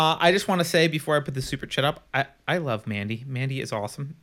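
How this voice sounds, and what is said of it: Usual voice. Nothing is said of it.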